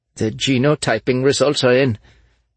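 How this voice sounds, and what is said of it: Thick Dutch accent, quivering voice. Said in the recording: “he stammered in a thick Dutch accent, his voice quivering”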